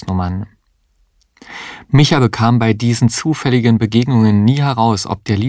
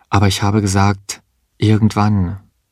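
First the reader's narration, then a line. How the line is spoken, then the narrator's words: Calm. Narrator (German): sagte sie ruhig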